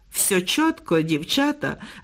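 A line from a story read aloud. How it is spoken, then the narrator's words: Laughing boy. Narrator (Ukrainian): розсміявся хлопець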